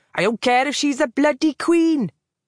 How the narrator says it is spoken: he snapped

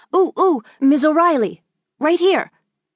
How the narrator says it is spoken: she was pleading

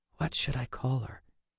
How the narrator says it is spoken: Rachel whispered

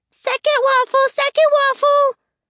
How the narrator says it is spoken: shouting

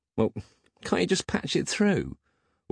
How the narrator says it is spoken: whined Peg like a teenager who didn't want to go to the shops for his mum because he was about to have another wank

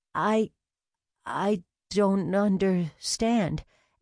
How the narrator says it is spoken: Allie stammered

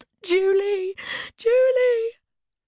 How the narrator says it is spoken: She wailed

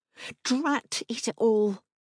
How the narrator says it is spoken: hissed between my teeth

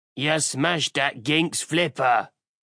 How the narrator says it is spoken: the Orc grunted

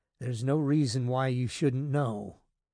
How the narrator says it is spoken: Dave said in a low voice

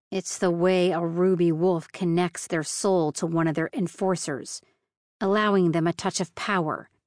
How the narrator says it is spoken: he snarled

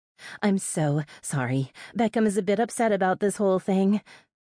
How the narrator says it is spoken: said breathlessly

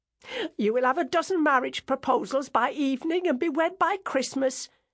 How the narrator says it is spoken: cried

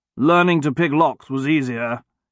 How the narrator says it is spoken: grumbled

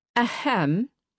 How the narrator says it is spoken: said loudly, unable to bear the waiting any longer

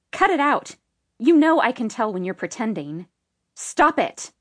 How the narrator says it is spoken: said sharply

